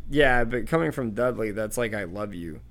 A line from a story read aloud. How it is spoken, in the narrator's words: said Harry, torn between annoyance and a desire to laugh at Aunt Petunia